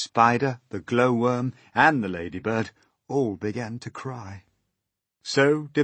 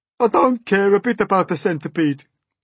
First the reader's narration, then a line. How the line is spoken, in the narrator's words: the earthworm sobbed